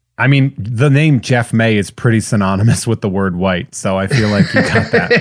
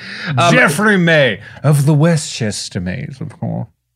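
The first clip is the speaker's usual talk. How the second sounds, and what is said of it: Frumpy American Northeast upper-class accent. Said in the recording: “your frumpy American Northeast accent. That was perfect.”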